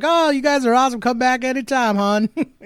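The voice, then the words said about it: Put-on Southern American accent. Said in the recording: “In that southern accent.”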